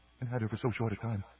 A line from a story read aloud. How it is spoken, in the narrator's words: said Maris softly